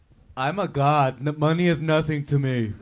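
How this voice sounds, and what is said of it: Imitates another person's voice. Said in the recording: “That is a really good impression.”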